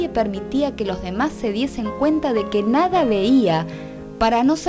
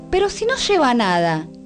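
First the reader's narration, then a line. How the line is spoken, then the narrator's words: Child's sudden exclamation. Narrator (Spanish): exclamó de pronto un niño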